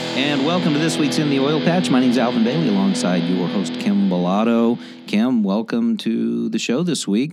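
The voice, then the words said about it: Raspy, hoarse voice. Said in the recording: “My voice is a little raspy today. Yelling at the TV all night Saturday or Tuesday night has got me a little raspy”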